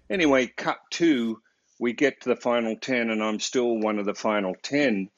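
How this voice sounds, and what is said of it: Australian accent. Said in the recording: “I'm just this Aussie kid with this funny accent ... I've got a funny accent.”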